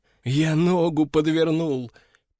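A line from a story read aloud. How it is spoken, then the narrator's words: Moaning. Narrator (Russian): простонал он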